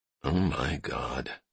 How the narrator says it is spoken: Todd muttered

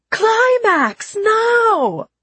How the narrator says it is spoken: he many times screamed really loud

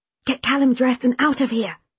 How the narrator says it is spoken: Sarah whispered urgently

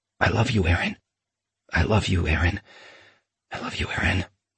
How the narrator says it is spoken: I whispered

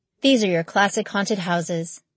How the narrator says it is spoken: he sighed

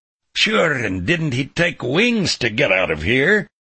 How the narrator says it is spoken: Mulvaney growled

